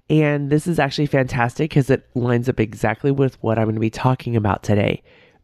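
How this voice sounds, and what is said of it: Sick, nasal congested voice. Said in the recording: “I am a little sick, as you can hear in my voice and my nasally nose.”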